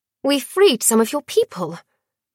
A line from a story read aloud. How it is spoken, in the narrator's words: Dior gasped